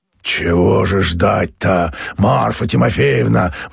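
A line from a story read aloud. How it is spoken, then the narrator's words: Hoarse male bass objecting. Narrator (Russian): возражал мужской хриповатый басок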